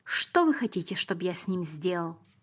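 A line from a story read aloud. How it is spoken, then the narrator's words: Agitated question. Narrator (Russian): сказал Пилат взволнованным голосом и спросил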